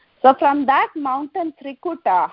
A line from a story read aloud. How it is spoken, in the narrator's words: Hanuman shouted